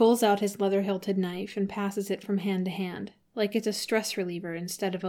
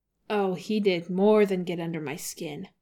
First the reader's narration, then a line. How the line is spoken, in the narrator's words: Sokka growls